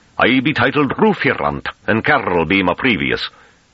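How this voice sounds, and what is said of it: Thick rustic accent, rolled throaty R's. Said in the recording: “His accent became noticeably more Hamish. His R's rolled throatily.”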